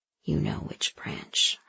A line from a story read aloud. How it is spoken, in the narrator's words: her mind whispered